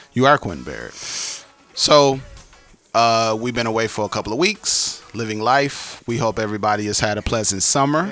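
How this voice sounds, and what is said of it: Raspy, slightly hoarse voice. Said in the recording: “my voice is a little bit under the weather. I'm sounding a little bit more raspy than normal”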